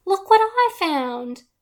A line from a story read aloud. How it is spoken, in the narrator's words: I exclaimed